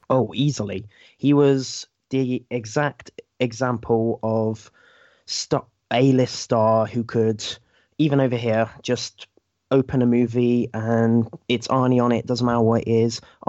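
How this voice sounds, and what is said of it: English accent. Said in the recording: “that very subtle accent, you are from England”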